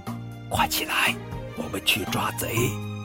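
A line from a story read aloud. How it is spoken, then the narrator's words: Hushed urgent call. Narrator (Chinese): 他压低声音叫大头儿子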